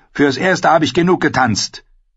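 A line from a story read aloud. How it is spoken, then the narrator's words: Too loud. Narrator (German): sagte er zu laut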